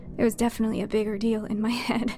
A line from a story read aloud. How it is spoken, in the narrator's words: I said with a laugh